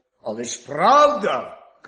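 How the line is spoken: Wolf shouting. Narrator (Ukrainian): крикнув вовк

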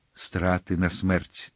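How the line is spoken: Muffled group reply. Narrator (Ukrainian): глухим голосом відповіли й мушкетери

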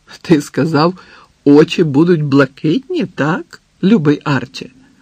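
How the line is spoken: Slow, carefully chosen words. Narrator (Ukrainian): Повільно, старанно добираючи слова, мовила Морін

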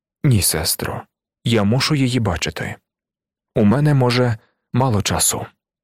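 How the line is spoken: Calm serious reply. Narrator (Ukrainian): Пан Мадлен, здавалося б, поміркував трохи, а потім спокійно та серйозно, як завжди, відповів

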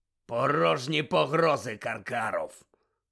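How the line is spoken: Growl from the door. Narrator (Ukrainian): прогарчав біля дверей чийсь голос

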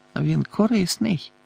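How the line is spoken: Muttering. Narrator (Ukrainian): пробурмотів Сіріус

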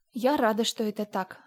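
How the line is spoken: Quick speech. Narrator (Russian): сказала Энн быстро

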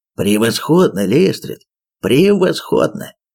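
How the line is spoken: Exclamation. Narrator (Russian): воскликнул он

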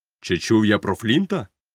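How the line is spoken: Exclaimed. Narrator (Ukrainian): вигукнув Сквайр

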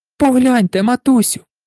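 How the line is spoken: Crying out. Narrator (Ukrainian): скрикнула

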